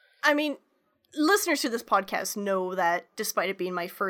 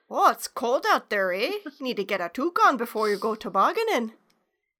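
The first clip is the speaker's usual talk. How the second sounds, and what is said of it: Exaggerated Canadian accent. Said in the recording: “my backwater Canadian accent”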